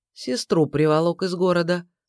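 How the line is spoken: Calm reply. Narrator (Russian): спокойно ответил Егор

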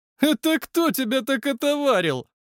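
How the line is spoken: Mocking question. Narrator (Russian): Насмешливо спросил один из пацанов

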